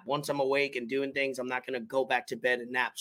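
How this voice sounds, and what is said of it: Hoarse, raspy voice. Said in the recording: “My voice is a little hoarse, more raspy than usual”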